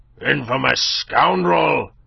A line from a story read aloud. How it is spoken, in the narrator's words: he roared